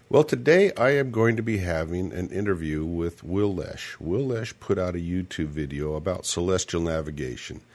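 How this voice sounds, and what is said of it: Slightly hoarse voice. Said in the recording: “My voice is a little hoarse today... Just affecting my voice a little bit.”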